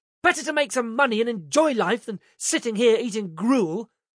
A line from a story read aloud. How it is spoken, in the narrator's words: spat, saying